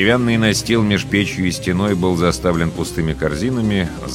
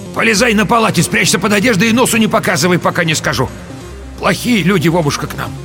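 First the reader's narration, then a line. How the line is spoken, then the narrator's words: Shouted to grandson. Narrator (Russian): крикнула внуку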